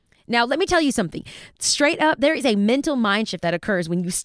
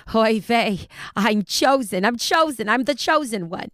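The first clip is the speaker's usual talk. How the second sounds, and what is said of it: Broken Yiddish Bronx accent. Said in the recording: “my broken Yiddish Bronx accent”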